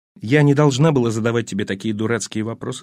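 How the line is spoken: Plain. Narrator (Russian): сказала она

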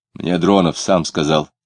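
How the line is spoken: Rude announcement. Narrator (Russian): грубо объявил Клим

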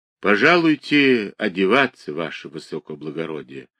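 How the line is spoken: Quiet. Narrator (Russian): сказал он тихо

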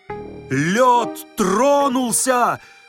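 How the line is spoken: Terrified shout. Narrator (Russian): в ужасе закричал великий комбинатор

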